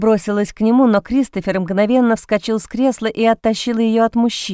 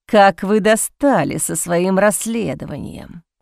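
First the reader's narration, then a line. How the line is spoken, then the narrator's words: Angry growl. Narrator (Russian): прорычал он со злостью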